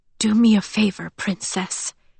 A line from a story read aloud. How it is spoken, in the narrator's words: he whispered, his breath warm against her mouth